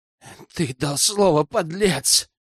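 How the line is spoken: Young man hissing. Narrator (Russian): шипел молодой Гёз

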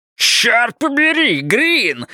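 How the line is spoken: Howled. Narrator (Russian): взвыл Хейзлтон

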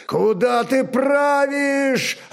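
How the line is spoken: Yelling. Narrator (Russian): орал накормчиво

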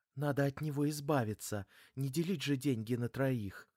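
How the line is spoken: Furtive whisper. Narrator (Russian): Все так же с оглядкой она прошептала

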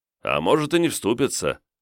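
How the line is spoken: Snorting. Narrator (Russian): хмыкнул Косорыл

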